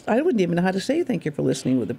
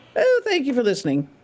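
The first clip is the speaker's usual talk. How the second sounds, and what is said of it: Put-on British accent. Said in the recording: “with a British accent ... That was good.”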